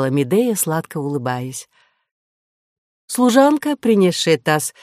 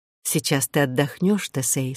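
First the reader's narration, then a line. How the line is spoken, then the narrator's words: Plain. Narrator (Russian): сказала Медея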